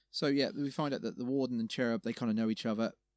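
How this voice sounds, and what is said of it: Accent with F for TH. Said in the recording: “It's with an F, well, not a TH. It's my my and accent”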